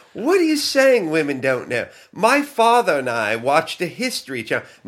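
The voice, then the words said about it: Put-on English accent. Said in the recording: “fake ... Accent ... a little bit more of a northern English accent ... I want to get you more central, like London”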